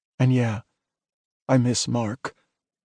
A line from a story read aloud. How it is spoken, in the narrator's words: she said quietly